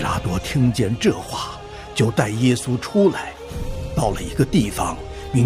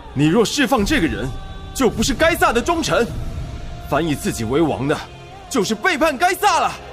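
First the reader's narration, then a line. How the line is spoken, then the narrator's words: Crowd shouting. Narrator (Chinese): 犹太人喊着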